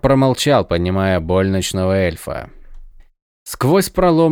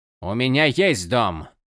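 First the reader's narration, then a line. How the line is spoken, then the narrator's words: Snapping retort. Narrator (Russian): огрызнулся Джерод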